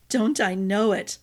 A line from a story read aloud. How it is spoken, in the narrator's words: Another chuckle escaped Arden